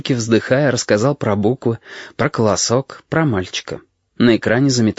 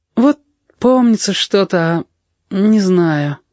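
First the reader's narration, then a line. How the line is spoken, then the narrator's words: Sad admission. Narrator (Russian): печально признался Яшка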